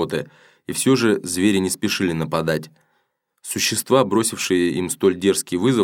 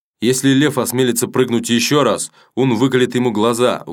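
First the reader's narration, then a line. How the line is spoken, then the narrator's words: Threatening shout. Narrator (Russian): угрожающе крикнул Уламр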